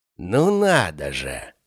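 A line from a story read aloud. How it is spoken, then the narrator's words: Drawn-out. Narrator (Russian): протянул Константин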